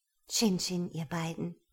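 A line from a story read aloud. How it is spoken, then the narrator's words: Gentle reply. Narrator (German): antwortete Juliane sanft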